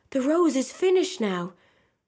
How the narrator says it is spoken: cried the tree

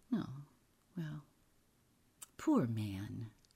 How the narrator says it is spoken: she murmured

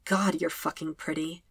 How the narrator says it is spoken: Sokka murmurs

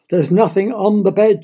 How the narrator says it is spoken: she sighed

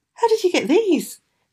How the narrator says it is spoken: he gasped as soon as he could speak

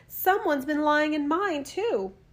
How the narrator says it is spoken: The others cried

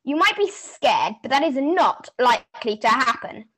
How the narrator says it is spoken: Kate snapped

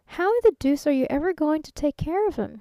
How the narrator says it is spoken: he asked

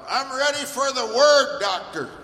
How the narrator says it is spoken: Everyone scream right out loud

